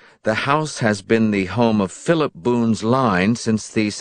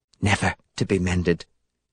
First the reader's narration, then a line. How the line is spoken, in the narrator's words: she whispered